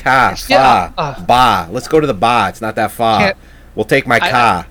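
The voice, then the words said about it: Put-on New England accent. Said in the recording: “a New England accent”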